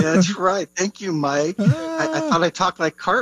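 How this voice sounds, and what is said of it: Usual voice. Nothing is said of it.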